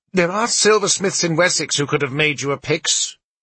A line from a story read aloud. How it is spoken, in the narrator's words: one of the priests snapped